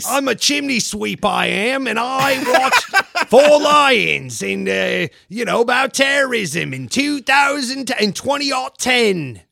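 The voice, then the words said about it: Mixed mock British accents. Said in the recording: “I love your ability to combine three different accents into one. ... If Dick Van Dyke starred in Snatch”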